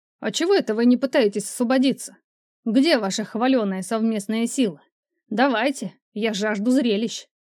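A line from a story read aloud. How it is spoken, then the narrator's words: Shouting. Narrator (Russian): Марек закричал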